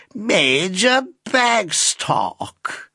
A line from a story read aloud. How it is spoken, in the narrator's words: drawled the lady in the chair